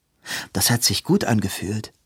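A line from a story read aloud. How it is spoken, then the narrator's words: Plain. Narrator (German): sagte Robin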